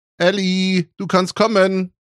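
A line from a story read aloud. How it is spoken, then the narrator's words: Mother calling upstairs. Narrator (German): rief Mutti nach oben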